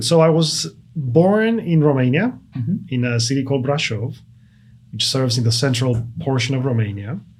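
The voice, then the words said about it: Foreign accent. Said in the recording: “another accent in our studio today”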